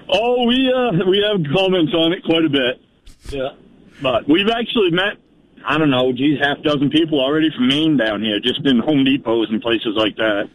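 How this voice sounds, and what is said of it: Strong Down East Maine accent. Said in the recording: “you got a real old line accent ... You got a down east accent.”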